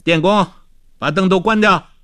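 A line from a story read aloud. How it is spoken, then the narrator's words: Calling out. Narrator (Chinese): 他又叫道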